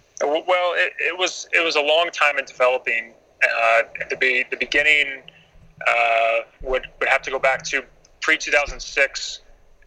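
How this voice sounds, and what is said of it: American accent. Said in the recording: “I'm an American, as you can plainly hear by the way I'm speaking.”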